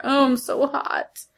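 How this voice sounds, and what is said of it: Glamorous Hollywood movie star voice. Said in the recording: “I sound like a Hollywood movie star.”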